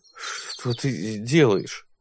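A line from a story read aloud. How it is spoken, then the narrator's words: Muttered. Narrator (Russian): пробормотал он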